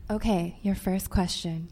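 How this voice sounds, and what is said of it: Smooth, soft radio-host style voice. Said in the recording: “I love that you're busting out your NPR voice. ... Or like your sexy yoga voice.”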